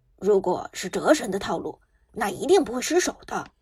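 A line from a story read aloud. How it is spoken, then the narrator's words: Hasty low voice. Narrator (Chinese): 刘思雨连忙……低声道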